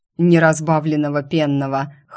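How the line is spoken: Chuckling. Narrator (Russian): хохотнул ушастый

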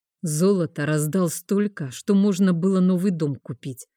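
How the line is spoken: Grumbling. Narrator (Russian): проворчал он

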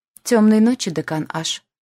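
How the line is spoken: Arrogant, cold voice. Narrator (Russian): Голос, ворвавшийся в кабинет, прозвучал надменно и холодно

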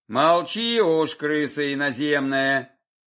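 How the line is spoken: Grumbling. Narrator (Russian): пробурчал солдат

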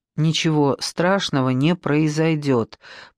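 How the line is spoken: Quiet promise. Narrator (Russian): пообещал он ему негромко

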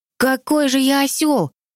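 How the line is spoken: Exclamation. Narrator (Russian): воскликнул он

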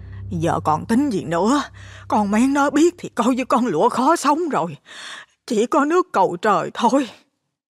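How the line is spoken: Sighing old woman. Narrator (Vietnamese): Bà Năm thở dài trả lời

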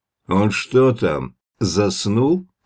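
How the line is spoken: Distant booming shout. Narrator (Russian): прогремело издалека

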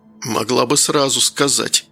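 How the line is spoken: Hoarse. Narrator (Russian): прохрипел Данил

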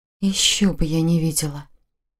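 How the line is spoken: Muttered. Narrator (Russian): пробормотала Саша

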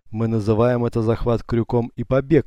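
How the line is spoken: Laughing. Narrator (Russian): рассмеялся Юсуф

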